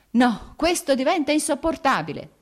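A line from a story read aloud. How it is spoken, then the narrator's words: Shouting, then slow. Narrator (Italian): gridò Vronsky … pronunciò adagio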